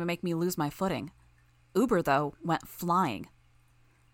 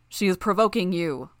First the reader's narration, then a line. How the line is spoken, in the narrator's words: Uber called out